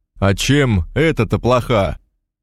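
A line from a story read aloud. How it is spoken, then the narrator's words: Shout. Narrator (Russian): крикнул Алексей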